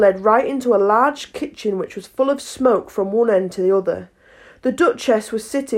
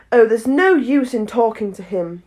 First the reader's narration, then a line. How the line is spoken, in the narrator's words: said Alice desperately